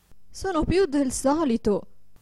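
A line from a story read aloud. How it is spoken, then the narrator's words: Desperate woman exclaiming. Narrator (Italian): esclamava disperata la povera signora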